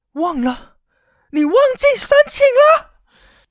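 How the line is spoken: High-pitched shriek, woman. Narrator (Chinese): 电话那一头的女人用高八度的声音尖叫了出来

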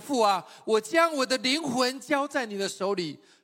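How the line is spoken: Loud cry. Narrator (Chinese): 耶稣大声的喊着说

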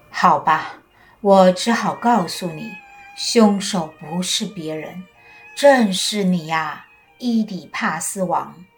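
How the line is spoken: Sighing. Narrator (Chinese): 先知叹了口气说

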